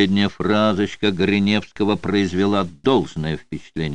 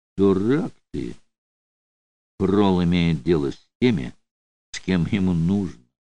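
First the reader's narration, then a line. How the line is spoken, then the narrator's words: Affectionate. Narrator (Russian): ласково сказал Гриневский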